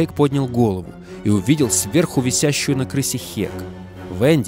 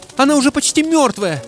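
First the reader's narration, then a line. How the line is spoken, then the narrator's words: Shout. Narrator (Russian): прокричала Хек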